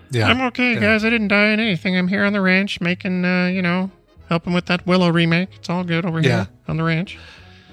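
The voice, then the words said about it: Impression of George Lucas. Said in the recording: “My impression of George Lucas”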